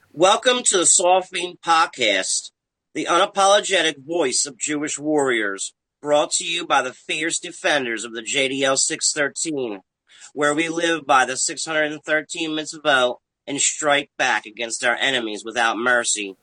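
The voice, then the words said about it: Strange accent, jittery tweaker-like voice. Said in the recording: “I'm baffled by that accent. ... That is a tweaker voice, but sprinkled and spiced with a little bit of junkie in there.”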